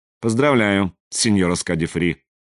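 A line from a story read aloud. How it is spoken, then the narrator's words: Dry, director. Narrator (Russian): сухо промолвил директор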